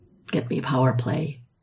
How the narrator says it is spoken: LeClaire whispered

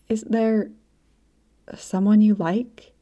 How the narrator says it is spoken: she asked, her voice coming out a near whisper

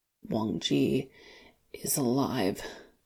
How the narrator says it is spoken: he croaks with great difficulty

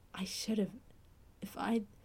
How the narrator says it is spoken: Trembling, Fraser whispered

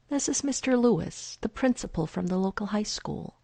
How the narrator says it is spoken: Agatha says calmly

